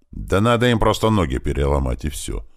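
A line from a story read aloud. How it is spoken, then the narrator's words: Calm. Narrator (Russian): спокойно сказал Туман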